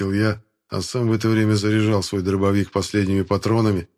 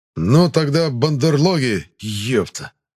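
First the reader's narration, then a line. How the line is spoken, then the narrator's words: Barked. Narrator (Russian): рявкнул я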